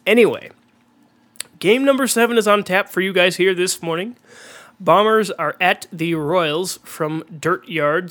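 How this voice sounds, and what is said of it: Congested voice from a cold. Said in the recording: “I am sick with a cold. If I sound congested”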